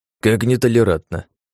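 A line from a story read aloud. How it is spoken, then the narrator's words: Scoffing snort. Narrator (Russian): хмыкнул Грибовский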